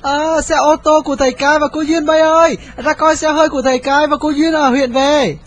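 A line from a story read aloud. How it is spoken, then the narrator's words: Loud cheering crowd. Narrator (Vietnamese): Chúng reo hò ầm ĩ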